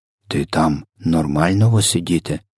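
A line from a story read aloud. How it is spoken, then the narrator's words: Whispered question. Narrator (Ukrainian): запитав він пошепки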